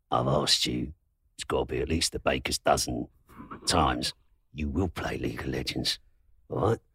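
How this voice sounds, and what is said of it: East End London gangster voice. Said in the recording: “I'll turn into an East End gangster... how come you're from London?”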